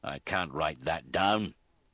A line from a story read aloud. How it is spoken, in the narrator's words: Sir George snapped